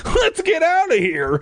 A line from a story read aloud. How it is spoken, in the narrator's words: I cried